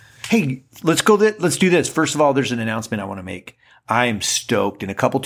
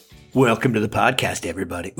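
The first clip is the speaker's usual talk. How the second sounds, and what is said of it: Deliberately deep voice. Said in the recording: “Ooh, that's a deep voice that's coming out at you now. ... I don't know if that's soothing. That wasn't very soothing at all.”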